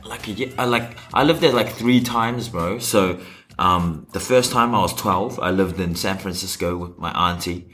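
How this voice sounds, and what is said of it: American-sounding accent. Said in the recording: “How did you get this accent from, bro? Because it's very American.”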